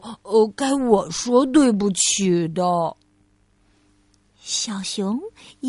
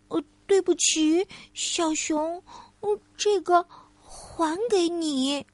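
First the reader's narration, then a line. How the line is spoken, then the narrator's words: Quiet voice. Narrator (Chinese): 小兔子 小声的说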